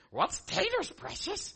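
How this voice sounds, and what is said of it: Gollum impression. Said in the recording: “that was my Gollum impression. That was good.”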